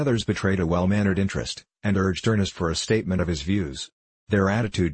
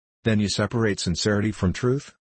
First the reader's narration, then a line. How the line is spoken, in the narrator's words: Ernest laughed quickly